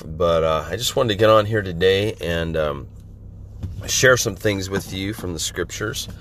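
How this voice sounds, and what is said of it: Slightly hoarse, congested voice. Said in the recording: “my voice is a little off today. I hope I can get through this without coughing. I'm just getting over a head cold, a little bit of chest cold, and so my voice is a little off”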